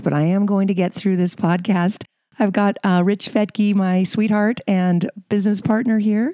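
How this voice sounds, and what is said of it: Hoarse, nearly lost voice. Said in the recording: “I have almost lost my voice”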